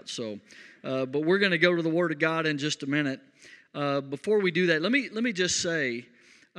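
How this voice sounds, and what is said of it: West Texas drawl. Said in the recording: “if the drawl throws you off a little bit ... sometimes I can't avoid my West Texas. It comes out.”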